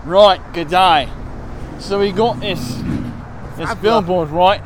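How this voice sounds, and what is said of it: Put-on Australian accent. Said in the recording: “we'll get into my official Australian accent.”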